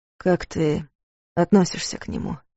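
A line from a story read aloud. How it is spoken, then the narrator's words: Quiet question. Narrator (Russian): спросил тихо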